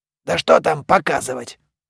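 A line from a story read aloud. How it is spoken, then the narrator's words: Mummy's grumbling. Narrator (Russian): ворчал мумий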